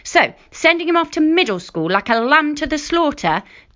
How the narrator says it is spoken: Dad answered angrily

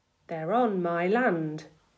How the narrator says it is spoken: my father said quietly

